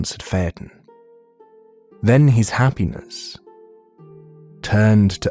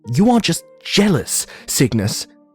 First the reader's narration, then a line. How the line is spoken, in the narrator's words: he snapped